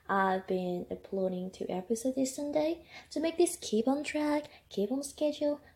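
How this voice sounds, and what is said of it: Strange, flu-affected congested voice. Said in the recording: “Sorry if my voice sounds strange, because I got a flu.”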